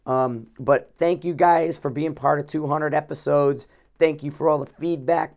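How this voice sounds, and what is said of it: Hoarse, worn-out voice. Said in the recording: “You probably can hear a little bit of it. My voice is shot.”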